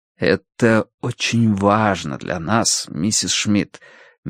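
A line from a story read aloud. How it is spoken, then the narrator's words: Soft speech. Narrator (Russian): мягко сказал Горни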